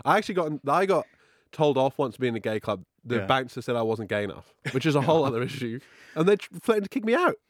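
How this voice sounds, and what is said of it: Welsh accent. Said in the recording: “the Welsh accent”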